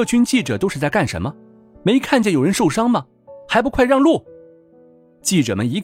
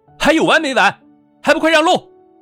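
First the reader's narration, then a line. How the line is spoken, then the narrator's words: Angry roar. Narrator (Chinese): 景少云朝着所有人怒吼了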